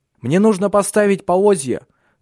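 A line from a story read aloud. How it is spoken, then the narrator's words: Shout. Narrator (Russian): крикнул он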